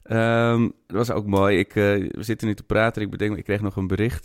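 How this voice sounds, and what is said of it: Amsterdam-Zuid Dutch accent. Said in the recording (Dutch): “Over mijn Amsterdam-Zuid accent.”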